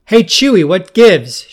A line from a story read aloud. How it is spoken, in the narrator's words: She shouted across the room